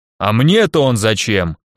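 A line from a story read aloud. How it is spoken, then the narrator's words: Rude, curt interruption. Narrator (Russian): Грубо оборвал ее сторож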